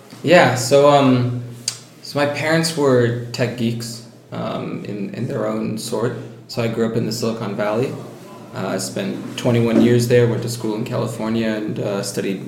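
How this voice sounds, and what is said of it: American accent. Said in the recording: “You naturally have an American accent”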